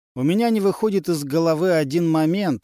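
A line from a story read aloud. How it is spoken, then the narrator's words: Plain. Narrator (Russian): сказал Андре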